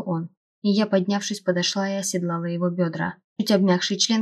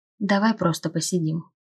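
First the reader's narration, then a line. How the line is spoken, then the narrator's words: Soft suggestion. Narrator (Russian): тихо предложил он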